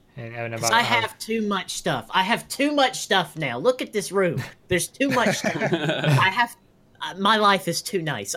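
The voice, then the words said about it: Alabama accent. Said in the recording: “his Alabama accent.”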